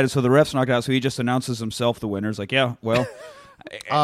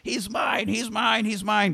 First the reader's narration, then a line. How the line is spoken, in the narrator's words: He just runs in screaming